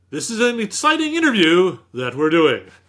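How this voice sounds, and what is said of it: Dad's on-camera announcer voice. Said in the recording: “your dad always talked to you like he was on camera”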